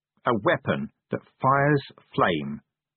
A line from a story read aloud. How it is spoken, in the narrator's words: he said slowly